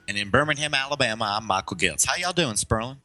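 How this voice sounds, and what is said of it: Imperfect put-on Southern accent. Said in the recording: “perfecting your Southern accent ... Not really, as anyone in the South would know”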